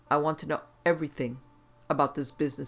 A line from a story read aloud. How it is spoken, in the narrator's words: said harshly